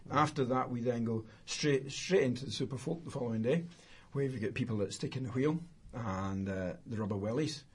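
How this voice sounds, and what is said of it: Scottish accent. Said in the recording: “Said in a Scottish accent as well. The rubber wellies. Where's Billy Connolly when you need him?”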